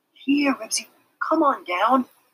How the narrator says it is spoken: begged Henry

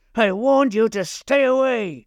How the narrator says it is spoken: bellow was such an unearthly howl it stopped the blood in his veins

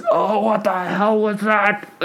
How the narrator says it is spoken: The guard just groans and he goes

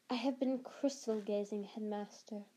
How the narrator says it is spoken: said Professor Trelawney in her mistiest, most faraway voice

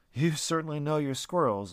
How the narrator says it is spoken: Lucas said, laughing

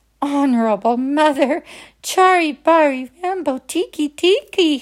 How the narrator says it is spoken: gasped

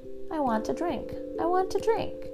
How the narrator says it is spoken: Winfield moaned

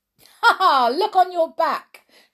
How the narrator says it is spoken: shouted Lenny

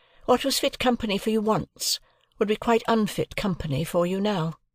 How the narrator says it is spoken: she added in a haughty tone

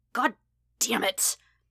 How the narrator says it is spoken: Kachan snarl

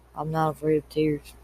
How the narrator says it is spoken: he said softly

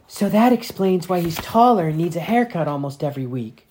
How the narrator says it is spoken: Natalia gasped

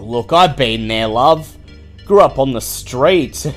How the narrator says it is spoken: Don scoff, and then he says

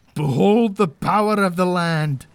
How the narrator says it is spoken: I roar to them, my bravado entirely false

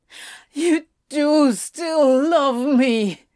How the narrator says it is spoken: he bawled

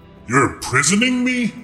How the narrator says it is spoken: he spat

